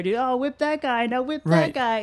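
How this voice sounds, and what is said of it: Imitates a rowdy drunk man. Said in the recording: “great impression of a drunk guy ... that was right on”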